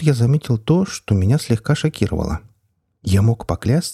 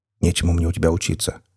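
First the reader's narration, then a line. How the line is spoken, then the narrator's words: Muttered. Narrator (Russian): буркнул я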